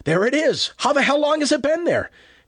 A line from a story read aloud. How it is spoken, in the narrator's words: His voice rose excitedly